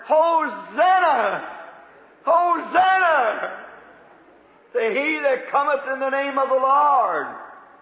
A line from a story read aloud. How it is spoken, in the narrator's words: others are hollering